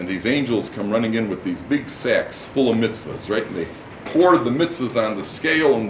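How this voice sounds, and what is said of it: Usual voice. Nothing is said of it.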